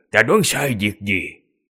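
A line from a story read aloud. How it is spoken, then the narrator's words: Cold faint smile. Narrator (Vietnamese): Trấn Tinh Quân cười nhạt, nói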